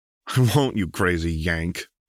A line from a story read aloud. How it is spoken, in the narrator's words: laughed Harry